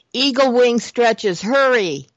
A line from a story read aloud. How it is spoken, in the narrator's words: they all cried together